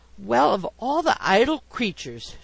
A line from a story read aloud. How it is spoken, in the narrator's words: she exclaimed